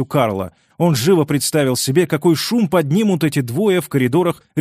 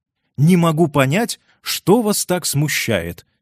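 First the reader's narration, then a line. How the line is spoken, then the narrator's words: Plain. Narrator (Russian): сказала женщина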